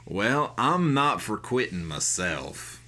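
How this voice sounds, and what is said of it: Put-on Wild West drawl. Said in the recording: “he's from the Wild West ... the first accent I could come up with that was a drawl”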